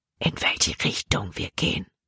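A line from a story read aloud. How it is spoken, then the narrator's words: Whispered. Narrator (German): flüsterte Jordan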